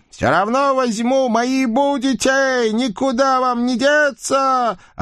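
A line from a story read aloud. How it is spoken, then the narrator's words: Old woman yelling. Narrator (Russian): орала бабка в гробу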